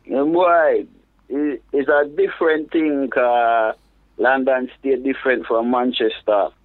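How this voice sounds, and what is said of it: Mixed British and Jamaican accent. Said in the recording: “the whole of my accent get completely mashed up”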